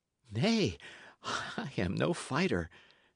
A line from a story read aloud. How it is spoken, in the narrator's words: said Matcham eagerly